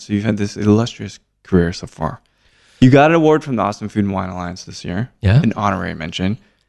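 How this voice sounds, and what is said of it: Exaggerated radio announcer voice. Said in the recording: “do this radio voice thing ... I get to use the inflection stuff”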